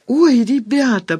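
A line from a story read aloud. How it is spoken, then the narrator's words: Moaning. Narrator (Russian): простонала Люда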